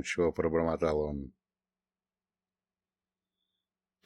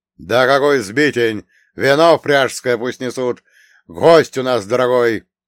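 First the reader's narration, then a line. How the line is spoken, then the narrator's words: Prince's angry bark. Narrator (Russian): рявкнул на нее князь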